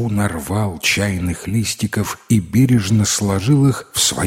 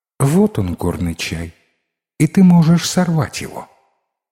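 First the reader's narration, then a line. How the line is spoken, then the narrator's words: Disappointed girl sighing. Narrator (Russian): Девушка разочарованно вздохнула и промолвила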